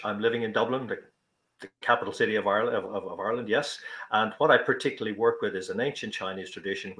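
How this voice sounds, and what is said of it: Irish accent. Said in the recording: “As you probably gather from the accent, I'm Irish.”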